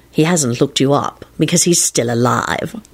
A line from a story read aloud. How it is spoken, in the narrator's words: Lupin replied solemnly